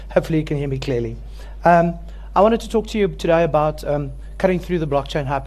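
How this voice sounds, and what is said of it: Hoarse, froggy throat. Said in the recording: “I have a bit of a frog in my throat. ... I'm going to start coughing”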